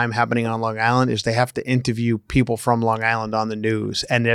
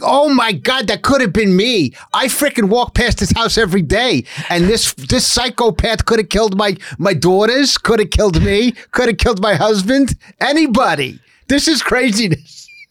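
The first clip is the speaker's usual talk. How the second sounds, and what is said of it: Put-on Long Island accent. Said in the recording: “the accent that you hear when something happens on Long Island”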